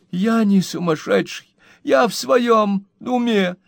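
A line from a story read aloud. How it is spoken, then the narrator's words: Whining, fat guy. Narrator (Russian): захныкал жирный парень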